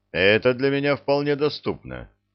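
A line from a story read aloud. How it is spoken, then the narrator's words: Calm. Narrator (Russian): спокойно произнес Базотти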